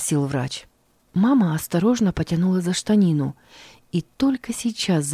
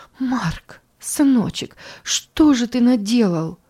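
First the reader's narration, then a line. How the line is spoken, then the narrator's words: Frightened. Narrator (Russian): испуганно проговорила она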